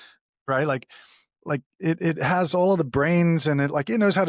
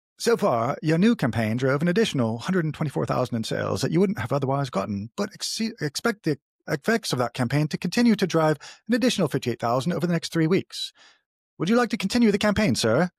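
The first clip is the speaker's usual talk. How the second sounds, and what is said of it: Put-on British accent, AI butler voice. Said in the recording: “I'm going to have to be Jarvis in a British voice here. So pardon my bad ... Accent.”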